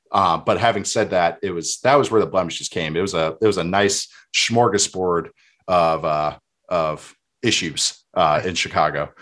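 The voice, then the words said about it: Minnesota accent. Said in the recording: “I feel like the Minnesota accent really comes out on smorgasbords for you.”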